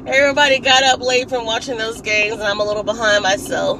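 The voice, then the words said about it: Raspy, hoarse voice. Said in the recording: “I'm a raspy this morning because ... loves to scream during games”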